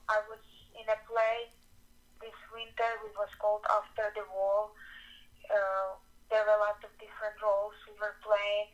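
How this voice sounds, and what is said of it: Non-native English accent. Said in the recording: “I have accent. Still working to kind of get my American accent.”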